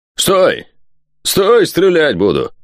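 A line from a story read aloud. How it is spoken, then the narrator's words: Barked command. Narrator (Russian): рявкнул стрелок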